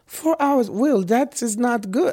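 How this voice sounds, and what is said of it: Imitates another person's accent, well done. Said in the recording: “that is a pretty good Ariana accent”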